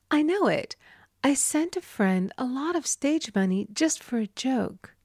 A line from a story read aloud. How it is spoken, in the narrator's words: exclaimed